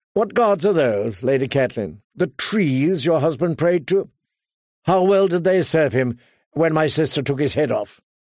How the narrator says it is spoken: gave a chuckle

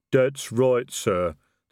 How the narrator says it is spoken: the troll rumbled

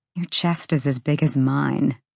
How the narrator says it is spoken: she muttered

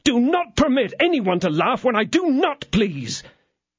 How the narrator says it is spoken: roared out D'Artagnan

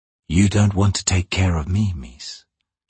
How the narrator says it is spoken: she said quietly

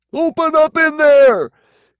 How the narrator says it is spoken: Kenny demanded at the top of his lungs

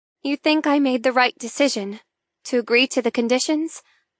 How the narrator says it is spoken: I ask hesitantly

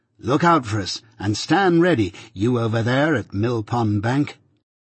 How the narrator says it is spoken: said Herbert cheerfully

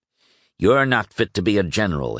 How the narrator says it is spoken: Hill snapped

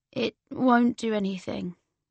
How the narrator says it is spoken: said Alid

